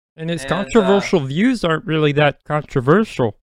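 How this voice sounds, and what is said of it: Imitates another person's voice. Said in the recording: “That was my impression. ... That was a great impression.”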